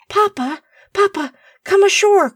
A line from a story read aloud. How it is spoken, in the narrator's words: cried Kenneth